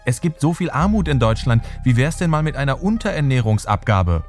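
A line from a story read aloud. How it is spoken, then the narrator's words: Ambitious official calling. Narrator (German): ruft ein ehrgeiziger Referent Theo Weigel zu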